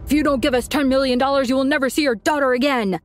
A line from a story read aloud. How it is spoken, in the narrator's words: yell